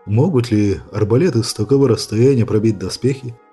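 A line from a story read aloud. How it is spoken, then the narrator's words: Plain. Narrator (Russian): спросил Джим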